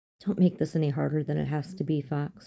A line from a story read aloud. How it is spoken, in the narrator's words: she said